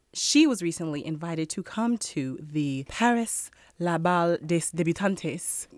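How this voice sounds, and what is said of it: Mock Spanish accent on French words. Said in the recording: “Why that was a Spanish accent? ... It's like a Franco-Spanish ball. ... It was like a hybrid. You know, it's California French.”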